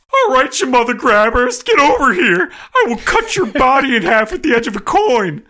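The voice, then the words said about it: Impression of Coach Hines. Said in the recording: “how good an impression I have of Coach Hines”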